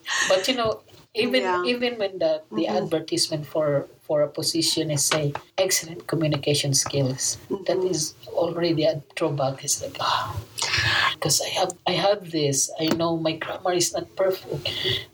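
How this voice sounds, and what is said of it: Speaks English with an accent. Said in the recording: “I know I have my accent ... You have an accent”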